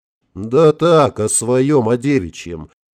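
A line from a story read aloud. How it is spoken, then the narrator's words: Tired wry chuckle. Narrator (Russian): устало усмехнулся полковник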